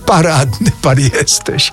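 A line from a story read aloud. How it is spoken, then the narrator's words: Laughing. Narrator (Polish): roześmiał się Mraczewski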